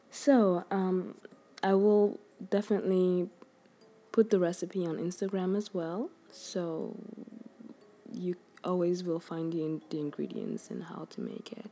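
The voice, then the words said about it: Sick-sounding voice. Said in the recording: “I'm a bit sick. I'm so sorry about my voice right now.”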